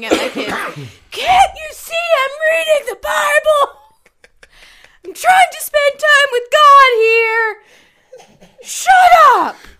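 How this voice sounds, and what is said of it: Yelling angrily. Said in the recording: “I'm yelling”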